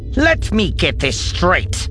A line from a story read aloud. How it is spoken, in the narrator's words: Captain Rossi growled